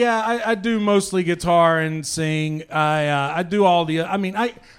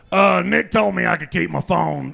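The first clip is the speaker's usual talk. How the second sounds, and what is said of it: Imitates another person's voice. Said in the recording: “do an impression of Alex Jones trying to get in the front door”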